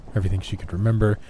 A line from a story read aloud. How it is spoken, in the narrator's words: she stuttered out